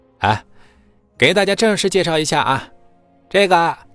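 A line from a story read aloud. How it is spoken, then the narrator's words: Cheerful, laughing. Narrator (Chinese): 秦牧 笑呵呵的冲着秦氏众人说道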